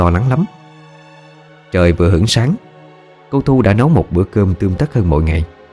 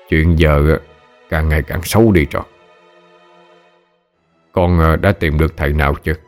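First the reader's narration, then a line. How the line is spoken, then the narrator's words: Stern old man asking. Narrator (Vietnamese): Ông nghiêm giọng hỏi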